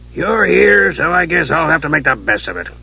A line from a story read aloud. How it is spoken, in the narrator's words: Dugan grumbled